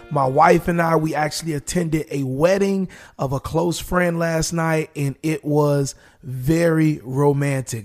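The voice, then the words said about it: Raspy voice. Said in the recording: “my voice is a bit more raspier than yesterday”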